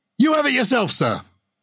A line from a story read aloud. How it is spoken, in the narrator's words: the prisoner shouted